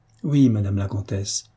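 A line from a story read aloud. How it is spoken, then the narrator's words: Plain. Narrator (French): répondit Herminie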